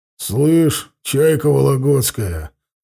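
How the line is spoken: Deep booming voice. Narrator (Russian): забасил Бугай на бабулю

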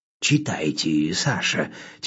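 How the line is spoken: Quiet request. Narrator (Russian): тихонько попросил Федя

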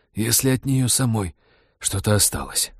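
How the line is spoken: Hoarse wheeze. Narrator (Russian): прохрипел Роджер

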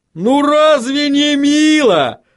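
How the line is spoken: Dreadfully cheerful exclamation. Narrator (Russian): с кошмарной жизнерадостностью воскликнул Ваймс

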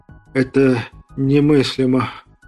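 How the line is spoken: Breathless. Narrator (Russian): выдохнул Виноградов

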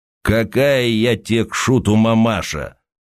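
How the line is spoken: Thick hoarse rasp. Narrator (Russian): густо прохрипела фигура, закутанная в тулуп

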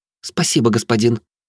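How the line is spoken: Joyful. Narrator (Russian): радостно произнесла Белла

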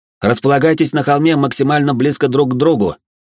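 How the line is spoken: Shouting. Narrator (Russian): прокричал я

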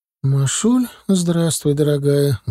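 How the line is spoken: Sad voice. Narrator (Russian): грустным голосом приветствовала она сестру

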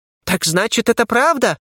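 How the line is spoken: Exclamation, young gnome. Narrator (Russian): воскликнул молодой гном

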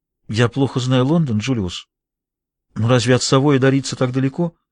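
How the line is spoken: Low-voiced question. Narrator (Russian): Джейн спросила вполголоса

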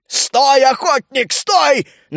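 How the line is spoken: Shouting. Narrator (Russian): закричал он

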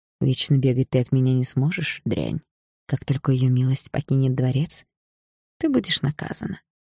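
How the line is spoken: Quiet. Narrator (Russian): Фейра тихо произнесла

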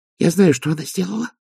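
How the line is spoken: Whisper. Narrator (Russian): прошептала Пердита

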